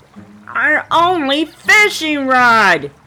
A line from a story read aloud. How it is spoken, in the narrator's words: yelled Squirrel